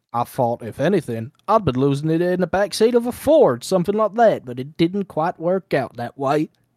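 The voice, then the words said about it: Put-on Southern US accent. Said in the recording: “accent. I'll channel my inner southern Georgia ... You have to do the accent ... He's just a stereotypical southerner.”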